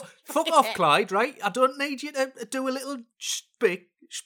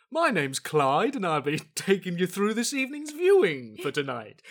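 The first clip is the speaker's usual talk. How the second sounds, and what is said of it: Imitates a TV continuity announcer voice. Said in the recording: “I'll do an impression of one ... TV continuity announcers who think they should have a personality”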